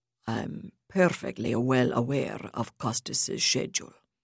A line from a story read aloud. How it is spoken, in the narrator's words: Zilwicky rumbled